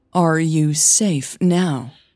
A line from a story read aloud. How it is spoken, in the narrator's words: she asked, her voice cool and steady